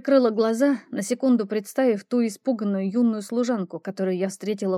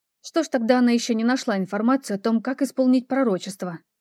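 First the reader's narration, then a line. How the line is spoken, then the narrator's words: Angry blurt. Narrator (Russian): Чересчур зло выпалила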